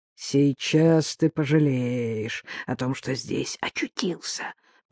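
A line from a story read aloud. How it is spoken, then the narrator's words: Hiss. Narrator (Russian): прошипел один из них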